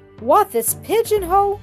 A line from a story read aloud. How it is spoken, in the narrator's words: he exclaimed, turning wrathfully